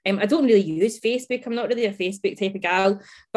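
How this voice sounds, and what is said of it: Scottish accent. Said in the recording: “the Scottish Scottish accent”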